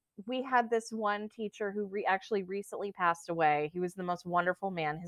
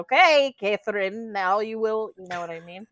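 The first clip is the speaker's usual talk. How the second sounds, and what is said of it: Put-on foreign accent. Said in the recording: “That's a great accent.”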